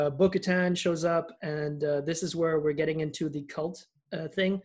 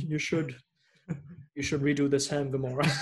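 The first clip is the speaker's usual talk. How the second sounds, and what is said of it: Imitates another person's voice. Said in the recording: “I don't do a very good Tim Gunn impression.”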